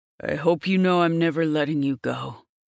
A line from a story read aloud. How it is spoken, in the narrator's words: I growl at her, my voice gravelly with my sudden emotion